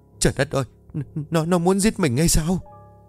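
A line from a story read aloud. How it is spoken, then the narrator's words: Terrified, indistinct stammer. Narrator (Vietnamese): Bà Bá mặt cắt không còn giọt máu, nó lắp bắp không nghe rõ được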